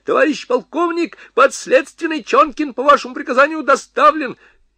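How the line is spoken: Shrill shout. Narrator (Russian): Курятников визгливо закричал

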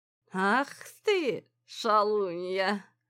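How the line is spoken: Sleepy mumble. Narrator (Russian): сонно пробормотал

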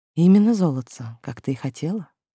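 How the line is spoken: Tender cooing. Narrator (Russian): нежно проворковал блондин

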